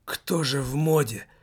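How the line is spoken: Strained groaning. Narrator (Russian): со стоном выдавил из себя Лассаль

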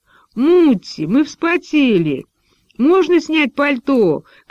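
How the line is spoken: Girls shouting from afar. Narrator (Russian): кричали девочки из-под ограды

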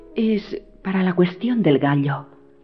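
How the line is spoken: Murmured. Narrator (Spanish): murmuró

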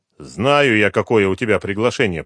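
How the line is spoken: Grumbling. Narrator (Russian): проворчал Шевцов

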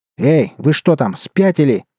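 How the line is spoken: Shouting. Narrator (Russian): заорал Герман

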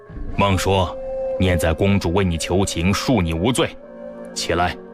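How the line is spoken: Deep stern command. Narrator (Chinese): 沉声喝道

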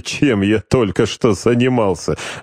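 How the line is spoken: Mischievous laughter. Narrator (Russian): озорно рассмеялся Гродов

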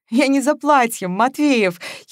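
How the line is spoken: Giggling. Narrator (Russian): хихикнула Маша

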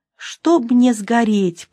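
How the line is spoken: Whisper. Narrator (Russian): прошептал он

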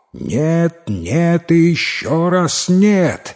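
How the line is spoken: Angry shout. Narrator (Russian): в гневе закричал купец

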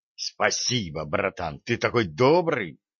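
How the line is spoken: Indignant outburst. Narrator (Russian): возмущенно вскинулся Джо

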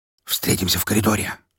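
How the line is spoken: Whisper. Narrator (Russian): шепнул я ему

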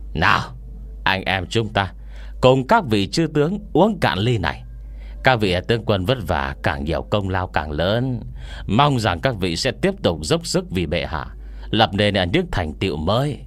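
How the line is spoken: Smiling. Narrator (Vietnamese): hắn mỉm cười nói với đám người Lý Thế Dân

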